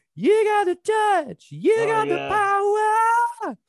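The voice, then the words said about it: Bad sung imitation of a song. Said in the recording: “I'm doing a bad impression again”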